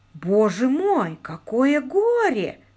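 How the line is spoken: Pompous exclamation. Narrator (Russian): воскликнул с напыщенностью, которая придает молодым людям такой глупый вид

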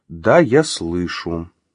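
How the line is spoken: Calm reply. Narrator (Russian): спокойно отозвалась она

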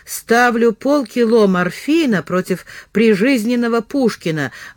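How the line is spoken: Gloomy pronouncement. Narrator (Russian): мрачно изрек он

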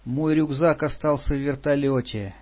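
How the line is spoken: Sighed. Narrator (Russian): вздохнула Патрушева

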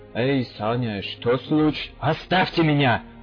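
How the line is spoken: Roar. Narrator (Russian): взревел я

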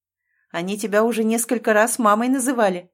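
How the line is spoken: Laughing man. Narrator (Russian): рассмеялся мужчина

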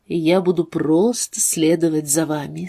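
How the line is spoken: Calm, controlled. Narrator (Russian): сказал Тейт, гордый тем, насколько спокойно он смог это произнести

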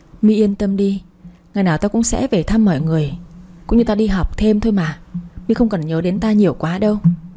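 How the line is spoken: Reply suppressing a sigh. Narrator (Vietnamese): Tôi cố ngăn tiếng thở dài đáp lại

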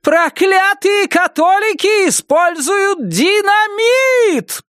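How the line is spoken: Roar. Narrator (Russian): проревела она

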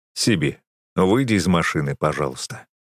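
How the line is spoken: Stern. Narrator (Russian): строго велю я

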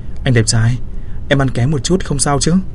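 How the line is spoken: Seductive, smiling question. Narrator (Vietnamese): Tần Hiểu Mai mỉm cười quyến rũ hỏi

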